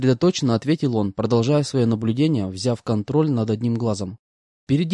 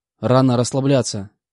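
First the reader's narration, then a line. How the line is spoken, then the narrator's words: Snort. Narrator (Russian): фыркнул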